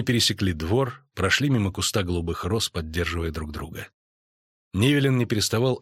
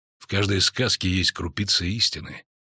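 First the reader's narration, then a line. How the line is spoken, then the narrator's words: Quiet. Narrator (Russian): тихо сказал ведьмак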